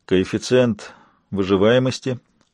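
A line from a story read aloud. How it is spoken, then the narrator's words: Lifeless flat question. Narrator (Russian): безжизненным тоном осведомился он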